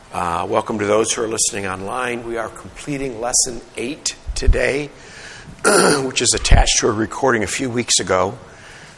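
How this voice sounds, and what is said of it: Sick, strained voice. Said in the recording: “Apologize for my voice, but I'm under the weather”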